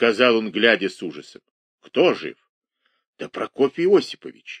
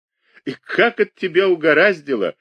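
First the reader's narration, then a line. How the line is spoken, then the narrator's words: Officials laughing. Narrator (Russian): смеялись чиновники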